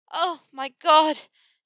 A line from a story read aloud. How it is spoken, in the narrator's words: she panted, her body aching and heavy